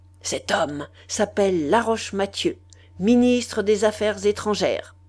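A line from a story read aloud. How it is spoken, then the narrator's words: Vibrant tone. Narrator (French): d'un ton vibrant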